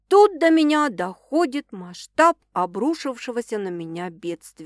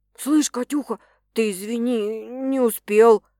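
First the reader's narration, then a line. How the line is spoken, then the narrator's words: Apologetic mumble close to ear. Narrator (Russian): бормочет Макс извиняющимся тоном мне в ухо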